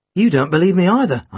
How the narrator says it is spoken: I exclaimed

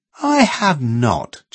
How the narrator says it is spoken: Janet exclaimed indignantly

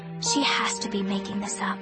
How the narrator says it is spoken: I whispered

